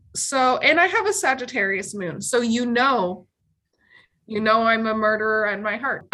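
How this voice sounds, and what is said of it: Canadian accent. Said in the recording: “some people are just constantly clocking my Canadian accent. So if you're hearing an accent, you're like, did she just get back from the dentist?”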